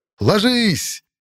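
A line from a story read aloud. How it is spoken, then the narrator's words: Yell. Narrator (Russian): Заорал я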